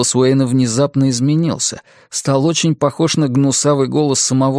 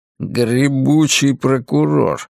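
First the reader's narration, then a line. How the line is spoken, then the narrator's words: Grumble. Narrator (Russian): пробурчал Ларри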